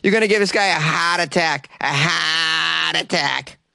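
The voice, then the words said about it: Put-on Boston accent. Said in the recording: “a great word to say with a Boston accent”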